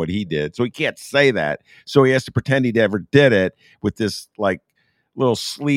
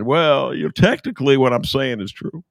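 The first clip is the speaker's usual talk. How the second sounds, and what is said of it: Imitates another person's voice. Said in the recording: “That's a pretty good Clinton imitation.”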